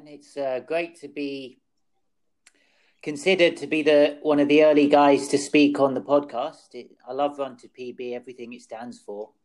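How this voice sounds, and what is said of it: English accent. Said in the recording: “you can obviously hear the English accent ... hails from the UK”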